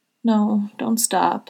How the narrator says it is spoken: Harry whines, looking disgruntled

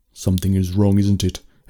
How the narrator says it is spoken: Henrik said

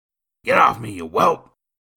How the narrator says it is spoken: Nathan barked

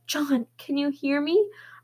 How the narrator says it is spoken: I pleaded, encouraged by his voice

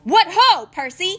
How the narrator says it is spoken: He shouted

